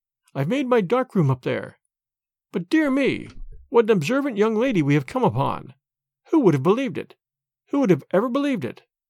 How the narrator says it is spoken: He spoke in a jesting tone

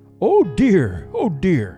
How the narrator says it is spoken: exclaimed Papa Panov

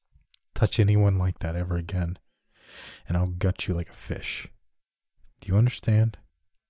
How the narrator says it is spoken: Her voice was calm and even, cold as ice

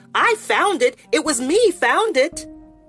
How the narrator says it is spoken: Joey shrieked

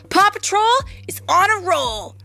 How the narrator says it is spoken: Ryder shouted

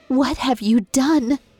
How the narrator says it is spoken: In a small, horrified voice, she asked

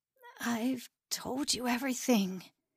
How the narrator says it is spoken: Levi whispered

